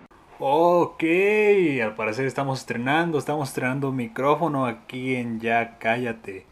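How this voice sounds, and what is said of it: Radio announcer voice. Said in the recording (Spanish): “¿Qué onda con mi voz de locutor? No sé por qué me salió así.”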